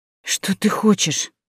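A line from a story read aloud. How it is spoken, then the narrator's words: Strained exhausted speech. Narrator (Russian): выдавила из себя из последних сил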